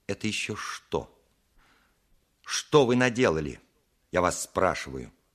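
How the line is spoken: Stern. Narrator (Russian): сказала она строго

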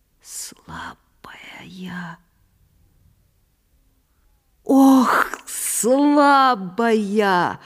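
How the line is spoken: Weak whisper through bloody lips. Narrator (Russian): Прошептала она еще вдруг окровавившимися губами

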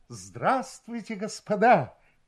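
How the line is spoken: Exclaimed. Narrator (Russian): воскликнул 1

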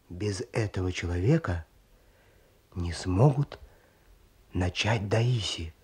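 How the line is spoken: Male voice dropping to whisper. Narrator (Russian): произнес мужской голос, снижаясь до шепота

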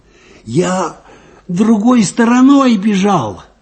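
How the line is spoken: Hoarse, strained voice. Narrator (Russian): сорванным голосом ответил Виталька

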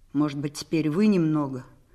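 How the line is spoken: Driver mumbling again. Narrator (Russian): снова пробормотал шофер

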